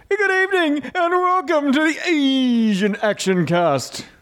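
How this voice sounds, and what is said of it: Imitates another person's voice. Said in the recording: “do my best Sam impression”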